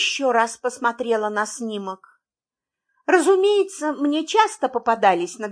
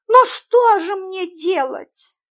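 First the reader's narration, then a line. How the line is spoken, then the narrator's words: Puzzled, plaintive. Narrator (Russian): недоуменно и жалобно сказала мисс Фридлендер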